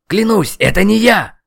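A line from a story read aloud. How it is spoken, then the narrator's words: Loud wail. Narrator (Russian): Завопил магистр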